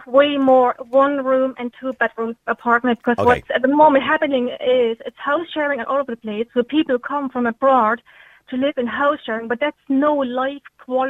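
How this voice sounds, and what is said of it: German accent with Cork Irish tinge. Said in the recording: “I could hear she had a German accent, but I could also hear she had a Cork accent as well... She's already adopted that Cork accent.”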